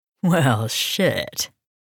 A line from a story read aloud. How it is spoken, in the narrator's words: chuckled